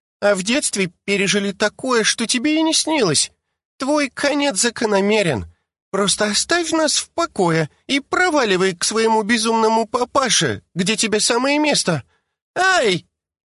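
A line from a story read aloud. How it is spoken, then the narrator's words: Child's pained exclamation. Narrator (Russian): воскликнул ребенок, когда взявшаяся из ниоткуда Джина больно оттянула ему ухо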